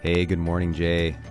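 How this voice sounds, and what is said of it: Deep, changed voice from illness. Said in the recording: “You sound like a radio shock jock from the 80s ... recovering from some kind of virus ... we sound either totally different”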